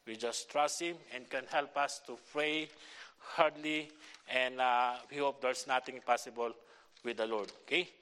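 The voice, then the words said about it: Filipino-accented English. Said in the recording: “I have a Filipino accent. My English is not too really good, you know, because my accents”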